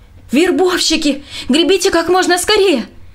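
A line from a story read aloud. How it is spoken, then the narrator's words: Shout. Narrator (Russian): Роб … крикнул двум рыбакам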